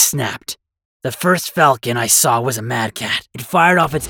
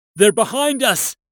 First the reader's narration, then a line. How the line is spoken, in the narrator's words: someone shouted